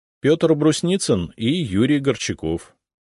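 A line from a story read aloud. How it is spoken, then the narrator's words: Plain. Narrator (Russian): ответил я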